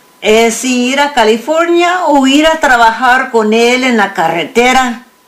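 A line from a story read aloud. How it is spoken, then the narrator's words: Thinking aloud. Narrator (Spanish): León pensó en voz alta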